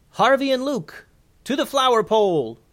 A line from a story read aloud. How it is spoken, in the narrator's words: called out